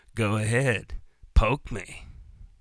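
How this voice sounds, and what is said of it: Gravelly tough-guy movie voice impression. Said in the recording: “good Clint Eastwood impression”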